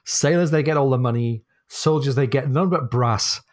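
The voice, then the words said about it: Northern English accent. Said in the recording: “my northern accent failing to rhyme brass and arse”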